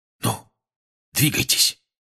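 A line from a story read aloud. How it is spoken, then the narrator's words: Whispered. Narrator (Russian): шепнул Фред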